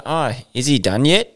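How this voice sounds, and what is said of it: Put-on South African accent. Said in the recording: “Why'd you keep doing that shit accent? ... That's South African, mate. ... You do actually do a good South African.”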